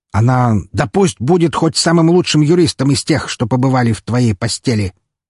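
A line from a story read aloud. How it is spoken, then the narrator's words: Father sharply interrupting. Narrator (Russian): резко оборвал его отец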